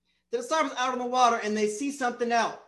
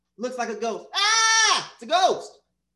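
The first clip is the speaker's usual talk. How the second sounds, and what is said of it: Screaming comedic impression of another person. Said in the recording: “my Dave Chappelle screaming impression. I think I did it pretty well.”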